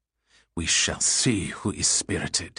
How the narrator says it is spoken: he hissed, a rabid glare to his eyes

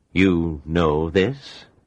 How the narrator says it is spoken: said slowly

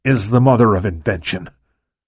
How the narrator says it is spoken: Truett said through gritted teeth

